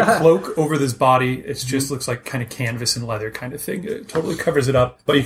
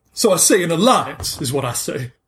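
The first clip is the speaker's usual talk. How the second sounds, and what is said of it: Southern US accent character voice. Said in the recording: “I'm getting tired of doing his southern voice.”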